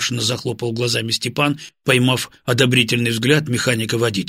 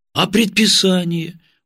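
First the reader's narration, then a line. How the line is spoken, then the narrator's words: Dejected question. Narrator (Russian): убитым голосом переспросил Степан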